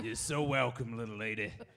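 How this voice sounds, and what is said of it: Put-on southern accent. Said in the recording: “tremendous southern accents”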